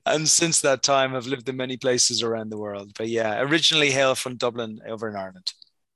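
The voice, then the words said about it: Irish accent. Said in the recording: “you have a wonderful accent”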